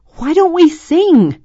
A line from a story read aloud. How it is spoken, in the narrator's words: shouted, hoping her brothers could hear her above the noise